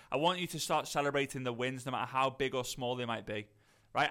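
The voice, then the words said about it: Soft Liverpool (posh Scouse) accent. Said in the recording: “I'm from Liverpool, north of Liverpool. A lot of people say it's like posh Scouse ... people say posh Scouser”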